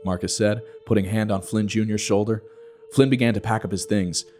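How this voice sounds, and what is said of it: Usual voice. Nothing is said of it.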